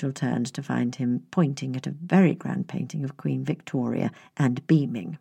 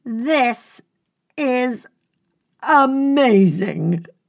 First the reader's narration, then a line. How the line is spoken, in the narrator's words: the Labrador yelled, interrupting her flow